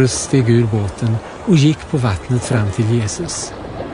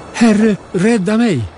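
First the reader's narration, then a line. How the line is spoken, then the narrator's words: Desperate cry while sinking. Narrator (Swedish): började sjunka och ropade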